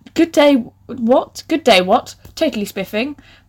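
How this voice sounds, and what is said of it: Posh fancy woman voice. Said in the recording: “in my best fancy woman voice ... I don't get posh people”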